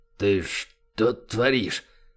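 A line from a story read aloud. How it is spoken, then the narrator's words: Tense dry hoarse rasp. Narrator (Russian): Пересохшим от напряжения голосом просипел низкорослый крепыш, боясь лишний раз пошевелиться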